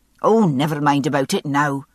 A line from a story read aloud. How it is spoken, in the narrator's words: his mother snapped